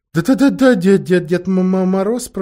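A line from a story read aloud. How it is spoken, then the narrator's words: Stuttering. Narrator (Russian): проговорил, заикаясь лис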